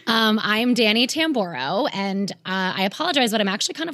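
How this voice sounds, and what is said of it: Raspy, strained voice. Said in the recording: “losing my voice. So I sound raspier than usual ... the ... rasp”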